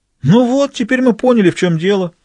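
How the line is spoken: Exclaimed. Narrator (Russian): воскликнул Ланжале

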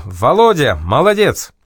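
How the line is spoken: Shout. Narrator (Russian): Якир крикнул

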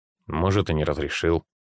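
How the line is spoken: Grumbled. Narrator (Russian): буркнул Игорь

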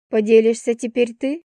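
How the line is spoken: Stranger's wry snort. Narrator (Russian): незнакомец хмыкнул

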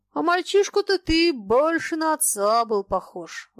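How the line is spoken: Sudden, sighing. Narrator (Russian): вдруг сказал Щуров и вздохнул

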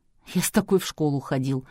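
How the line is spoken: Amused snort. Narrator (Russian): хмыкнул Полуянов

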